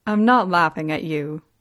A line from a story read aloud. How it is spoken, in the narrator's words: he said